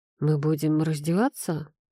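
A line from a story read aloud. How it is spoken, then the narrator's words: Muttering. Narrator (Russian): пробормотал я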